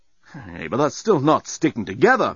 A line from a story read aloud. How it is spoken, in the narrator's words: moaned Dan